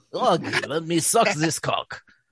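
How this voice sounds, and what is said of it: Burly Russian man accent. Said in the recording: “burly Russian man ... accent.”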